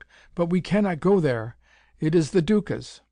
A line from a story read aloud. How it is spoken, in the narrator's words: she choked